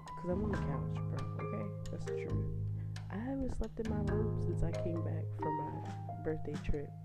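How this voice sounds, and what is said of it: Whispering. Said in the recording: “why I'm whispering? Bro, I'll tell you why I'm whispering.”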